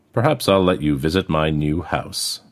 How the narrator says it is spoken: Mouse said dryly

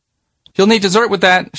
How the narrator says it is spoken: she said loudly

